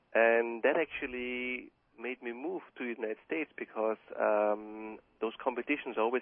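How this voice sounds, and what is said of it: Austrian accent. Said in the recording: “as you hear from my accent ... You're Austrian.”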